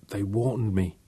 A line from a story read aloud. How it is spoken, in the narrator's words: whispered